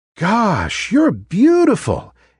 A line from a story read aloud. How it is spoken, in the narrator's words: exclaimed the other trees